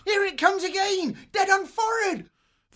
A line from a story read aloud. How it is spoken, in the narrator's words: Suddenly, called out